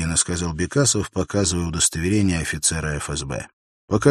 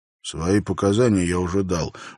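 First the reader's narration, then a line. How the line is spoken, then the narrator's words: Gruff muttering. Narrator (Russian): буркнул охранник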